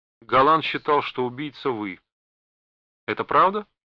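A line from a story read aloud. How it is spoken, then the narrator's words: Strikingly carefree tone. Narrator (Russian): Он задал этот вопрос удивительно беззаботным тоном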